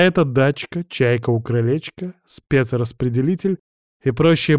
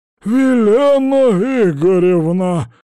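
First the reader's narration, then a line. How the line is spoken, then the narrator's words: Shrieking. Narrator (Russian): взвизгнул Обломкин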